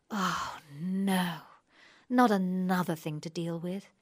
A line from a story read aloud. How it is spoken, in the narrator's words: she sighs